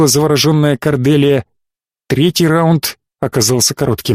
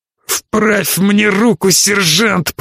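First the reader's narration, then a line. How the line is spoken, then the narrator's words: Groaning. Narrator (Russian): простонал Фаркасиган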